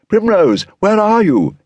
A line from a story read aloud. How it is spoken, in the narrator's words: he cried